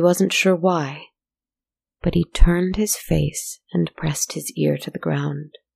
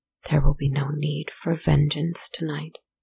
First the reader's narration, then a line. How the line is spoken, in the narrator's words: He whispered